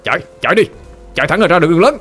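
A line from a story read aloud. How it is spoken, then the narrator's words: Loud shout. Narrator (Vietnamese): Armando hét lớn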